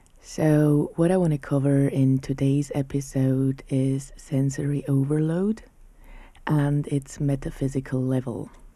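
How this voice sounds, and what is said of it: Sick, unwell-sounding voice. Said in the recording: “as you can hear, my voice is still not really good. I actually caught a cold.”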